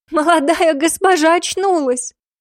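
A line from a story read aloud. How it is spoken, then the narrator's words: Choked gasp near tears. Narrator (Russian): Сдавленно ахнула одна, едва не разрыдавшись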